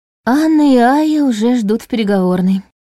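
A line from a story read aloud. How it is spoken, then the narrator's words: Weary, drained. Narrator (Russian): сообщила Лиля, и голос ее прозвучал устало, словно к началу рабочего дня она уже израсходовала почти все силы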